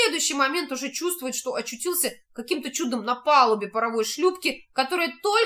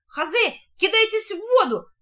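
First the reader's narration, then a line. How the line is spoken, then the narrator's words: Hurried shout. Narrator (Russian): успевает еще крикнуть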